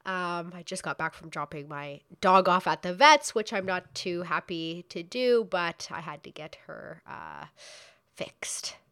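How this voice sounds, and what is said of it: Stuffy, sick-sounding voice. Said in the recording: “I have a cold.”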